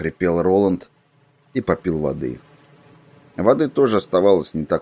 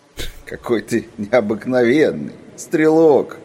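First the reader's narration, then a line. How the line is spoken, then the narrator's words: Giggling voice inside head. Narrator (Russian): хихикал у него в голове человек в черном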